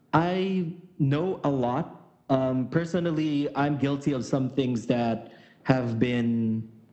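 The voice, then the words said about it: Stuttering, halting speech. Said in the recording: “I'm stuttering because it's cold”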